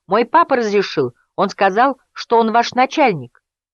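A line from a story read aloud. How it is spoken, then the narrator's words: Boy shouting back. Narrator (Russian): мальчуган крикнул в ответ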